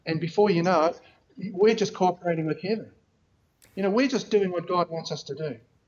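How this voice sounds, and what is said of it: New Zealand accent. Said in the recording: “he lives a long way away in New Zealand ... has a funny accent”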